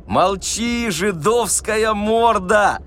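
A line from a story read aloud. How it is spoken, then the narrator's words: Joyful shout. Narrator (Russian): радостно закричал губатый атаман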